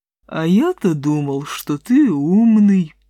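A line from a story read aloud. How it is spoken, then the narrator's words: Lazy lowing drawl. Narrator (Russian): лениво промычал буйвол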